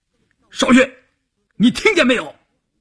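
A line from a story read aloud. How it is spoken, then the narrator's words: Shout. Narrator (Chinese): 关山林喊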